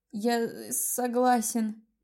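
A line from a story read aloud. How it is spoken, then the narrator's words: Trembling, faltering murmur. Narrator (Russian): наконец пролепетал дрожащими губами Доминик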